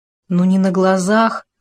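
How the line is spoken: Dejected. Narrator (Russian): уныло произнес Хома

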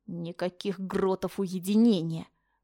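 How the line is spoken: Angry, through teeth. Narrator (Russian): процедила со злостью

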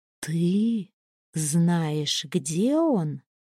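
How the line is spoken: Slow deliberate. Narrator (Russian): медленно выговорила я

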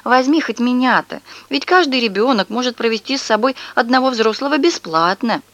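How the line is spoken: Pleading. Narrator (Russian): бабушка взмолилась

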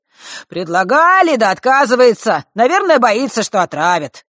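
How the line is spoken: Man, with a snort. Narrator (Russian): добавил мужчина, хмыкнув

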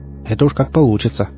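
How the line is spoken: Snort. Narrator (Russian): хмыкнул я

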